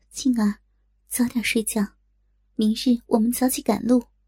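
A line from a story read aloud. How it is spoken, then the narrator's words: Soft voice. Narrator (Chinese): 柔声道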